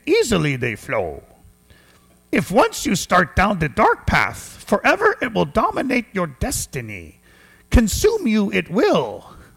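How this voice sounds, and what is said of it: Yoda impression, somewhat like Fozzie Bear. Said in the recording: “I think my accent might have sounded a little more like Fozzie from time to time. But that was definitely Yoda.”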